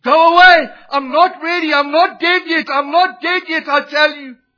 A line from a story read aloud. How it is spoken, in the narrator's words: an empty, bitter old man who repeatedly fell into shrieking terrors, crying